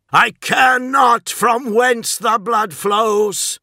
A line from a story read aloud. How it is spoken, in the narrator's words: roared Kroger